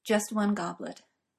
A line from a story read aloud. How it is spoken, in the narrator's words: Merlin says, quietly now, and with nothing of his earlier casualness